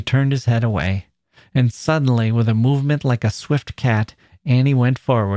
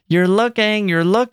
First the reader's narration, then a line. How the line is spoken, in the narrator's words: they shouted